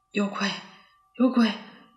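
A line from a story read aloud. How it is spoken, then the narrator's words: Frightened muttering. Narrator (Chinese): 沃尔夫 嘴里喃喃自语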